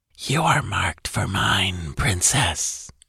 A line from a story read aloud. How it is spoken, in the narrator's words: came the gloating whisper